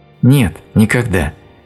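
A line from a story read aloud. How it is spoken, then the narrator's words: Sad, slightly angry. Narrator (Russian): печально и чуть сердито сказала Элиза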